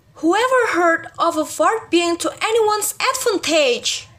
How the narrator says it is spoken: I cried again

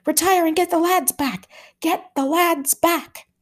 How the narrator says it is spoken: someone was shouting

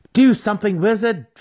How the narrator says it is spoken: Drizzt cried

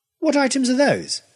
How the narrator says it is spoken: I demanded crossly

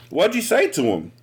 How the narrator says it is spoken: Selena asked excitedly

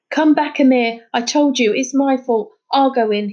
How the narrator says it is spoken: he shouted

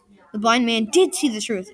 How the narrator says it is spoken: exclaimed the king in wonder

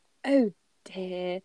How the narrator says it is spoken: Molly says gently

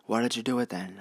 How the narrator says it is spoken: asked

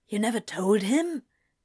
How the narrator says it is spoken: Anthony whispered

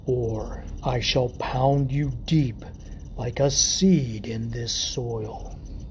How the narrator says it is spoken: growled in a guttural rasp

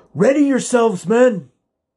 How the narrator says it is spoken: Audric cried

